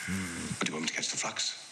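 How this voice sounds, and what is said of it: Impression of John Blackthorn, English voice. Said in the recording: “do his voice... He's an Englishman... you would do his voice so good”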